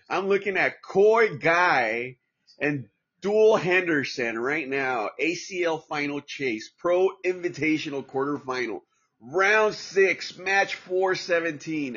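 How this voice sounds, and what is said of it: Exaggerated patriotic American accent. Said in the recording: “my horrible accent, you know, being a proud patriotic American”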